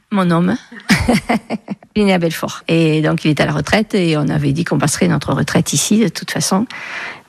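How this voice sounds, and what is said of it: Southwestern French regional accent. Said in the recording (French): “Un nouveau petit accent ... Il vient d'où ce petit accent ... Du sud-ouest, sud-Gironde, enfin plutôt Lot-et-Garonne.”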